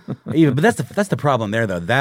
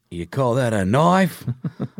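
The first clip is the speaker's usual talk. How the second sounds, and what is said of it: Over-the-top Crocodile Dundee Australian accent. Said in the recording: “That accent was just so over the top, and his character was so over the top, Mr. Australia”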